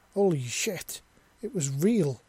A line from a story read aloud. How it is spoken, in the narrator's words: he exclaimed